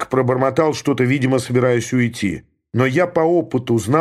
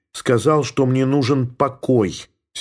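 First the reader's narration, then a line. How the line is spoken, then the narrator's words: Curt angry retort. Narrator (Russian): сердито бросила Елена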